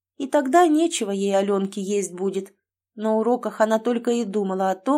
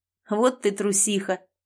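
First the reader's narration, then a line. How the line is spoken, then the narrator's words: Laughing. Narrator (Russian): рассмеялся он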